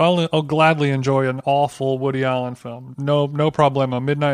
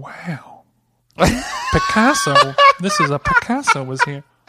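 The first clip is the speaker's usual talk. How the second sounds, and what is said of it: Imitates another person's voice. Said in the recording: “I didn't know you could do it, Owen Wilson. Do the wow one more time for us.”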